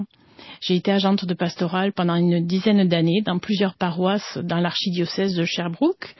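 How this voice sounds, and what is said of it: French accent from France. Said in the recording (French): “je suis française, ça s'entend, mais avec mon accent exotique”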